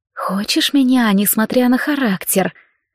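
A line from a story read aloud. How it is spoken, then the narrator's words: Nervous whisper. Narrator (Russian): Мужчина сглотнул и прошептал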